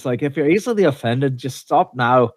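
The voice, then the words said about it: Put-on Scottish accent. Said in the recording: “I apologize for butchering the Scottish accent ... That was actually pretty good, I thought ... It was all right. It was good.”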